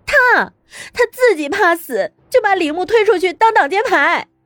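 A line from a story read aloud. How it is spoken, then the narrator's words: Angry cursing. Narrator (Chinese): 乐乐 气呼呼的 叫骂道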